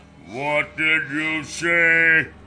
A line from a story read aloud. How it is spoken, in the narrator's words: Brock said, his voice as loud as distant thunder